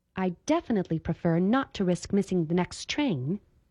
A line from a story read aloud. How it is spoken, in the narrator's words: Esther answered sharply